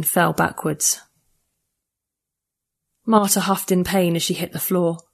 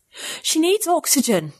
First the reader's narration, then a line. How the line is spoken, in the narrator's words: I gasped again over my shoulder at the flunky